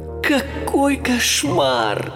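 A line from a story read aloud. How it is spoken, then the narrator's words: Groaning. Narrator (Russian): простонал Майло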